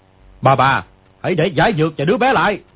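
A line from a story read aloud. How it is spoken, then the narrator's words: Shouted. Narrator (Vietnamese): người kia quát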